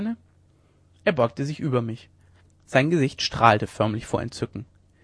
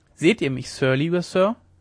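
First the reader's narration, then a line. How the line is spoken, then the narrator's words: Plain. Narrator (German): fragte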